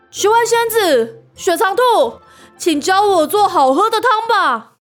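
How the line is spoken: Loud shout. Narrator (Chinese): 对空中大喊

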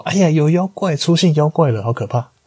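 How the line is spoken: Servant shouting in alarm. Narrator (Chinese): 突然那个有奴婢就是大喊着说

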